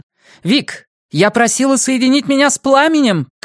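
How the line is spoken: Shouting. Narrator (Russian): крикнула она

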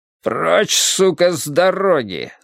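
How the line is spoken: Growl. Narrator (Russian): зарычал Пит

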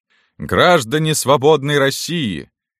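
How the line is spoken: Tipsy shouting. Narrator (Russian): кричал Керенский, немного захмелев

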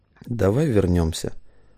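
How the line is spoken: Low voice. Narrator (Russian): вполголоса заметила Мария

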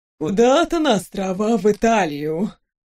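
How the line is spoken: Envious sigh, troll woman. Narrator (Russian): Даже не скрывая зависти, вздохнула троллиха Грызольда

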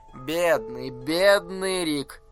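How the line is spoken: Purring over phone. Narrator (Russian): опять промурлыкал голос в трубку

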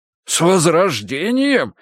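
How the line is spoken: Indignant exclamation. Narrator (Russian): возмущенно воскликнул он

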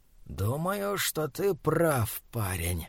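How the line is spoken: Hiss. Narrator (Russian): прошипел он

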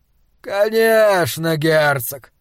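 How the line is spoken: Lazy contented drawl. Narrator (Russian): протянул Гутвульф, как согревшаяся на солнце кошка

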